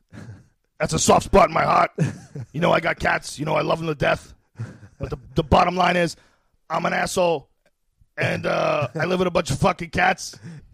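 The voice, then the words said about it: Imitates another person's voice. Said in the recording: “My Joey Diaz impression ... Such a good impression.”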